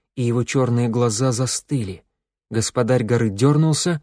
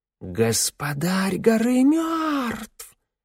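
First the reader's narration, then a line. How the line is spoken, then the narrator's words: Loud hiss from crowd. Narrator (Russian): кто-то громко прошипел в толпе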